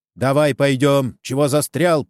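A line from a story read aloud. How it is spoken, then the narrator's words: Sharp shout. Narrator (Russian): прикрикнул на него жандарм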